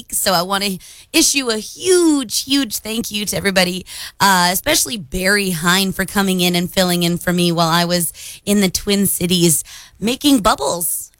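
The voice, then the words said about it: Slightly raspy voice. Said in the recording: “my voice sounds a little raspy this morning too”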